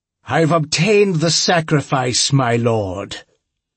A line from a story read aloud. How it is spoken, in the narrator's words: the vampire proclaimed loudly